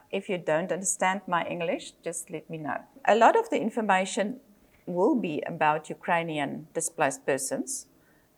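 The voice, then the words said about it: South African accent. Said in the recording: “I speak Afrikaans at home. So I have a South African accent.”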